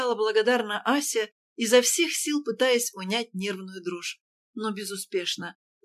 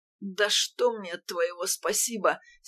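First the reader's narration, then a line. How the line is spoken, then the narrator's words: Angry sudden groan. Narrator (Russian): сердито проговорил, простонал вдруг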